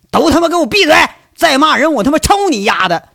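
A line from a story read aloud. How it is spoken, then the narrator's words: Furious shout. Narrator (Chinese): 被仨老太太围着，这一个劲儿的骂，怒极之下喊一句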